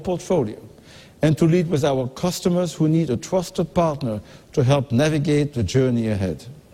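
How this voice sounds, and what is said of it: German accent, villain-like. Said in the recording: “any person who's German ... it's an awesome accent ... sounds like an evil villain”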